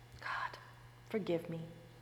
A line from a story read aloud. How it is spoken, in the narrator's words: all she could say in a whisper was